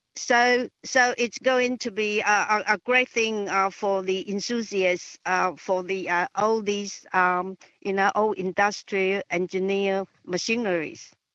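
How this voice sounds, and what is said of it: Speaker's own non-native accent. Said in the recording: “my accent.”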